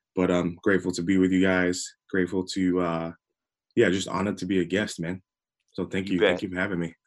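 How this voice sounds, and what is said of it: English accent mixed with American. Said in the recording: “if I sound weird. It's because I'm English, but I've been living in America for a while, so I kind of like jump in and out of both accents ... You do sound different ... it isn't because you have your morning voice either”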